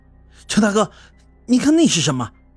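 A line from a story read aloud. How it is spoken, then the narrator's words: Embarrassed, sudden shout. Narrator (Chinese): 赵志军显得有些无地自容，突然又对着我大喊道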